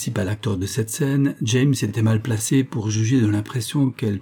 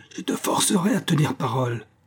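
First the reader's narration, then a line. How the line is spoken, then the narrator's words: Yelled. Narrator (French): hurla-t-il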